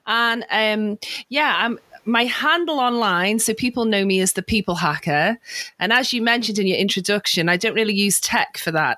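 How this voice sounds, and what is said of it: Slight Northwest English accent. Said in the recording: “I'm from northwest of England, so you'll detect a little bit of an accent.”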